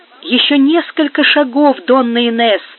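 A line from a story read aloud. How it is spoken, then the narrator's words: Priest's encouraging exclamation. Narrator (Russian): воскликнул патер, чтобы поддержать ее мужество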